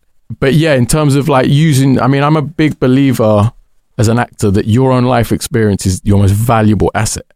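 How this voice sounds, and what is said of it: London accent. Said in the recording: “I've got quite a London accent”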